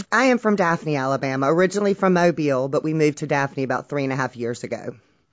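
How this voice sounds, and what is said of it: Alabama Southern accent. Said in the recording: “You say you've got a great radio voice ... I really enjoy the Alabama accent. I think it's got sort of guts to it, gusto ... they have a bit of grit about them”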